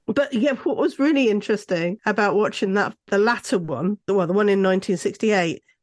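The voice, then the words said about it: Strained, failing voice. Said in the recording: “my voice is going, as you can hear already”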